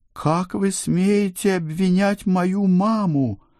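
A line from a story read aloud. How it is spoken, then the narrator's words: Howling indignant cry. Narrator (Russian): взвыла Эльвира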